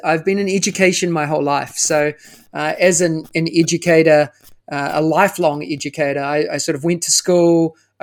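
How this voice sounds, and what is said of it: New Zealand accent. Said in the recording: “as you can tell by the accent, from New Zealand”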